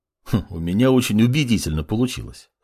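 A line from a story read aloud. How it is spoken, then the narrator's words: Smirking snort. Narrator (Russian): хмыкнул маг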